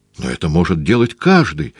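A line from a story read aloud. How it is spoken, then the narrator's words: Exclaiming. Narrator (Russian): воскликнул Фарук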